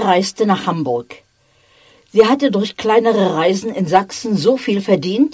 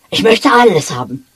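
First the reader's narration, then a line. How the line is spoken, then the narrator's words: Lively exclamation. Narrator (German): rief er lebhaft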